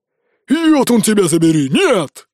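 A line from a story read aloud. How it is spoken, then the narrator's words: Roar. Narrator (Russian): взревел Ури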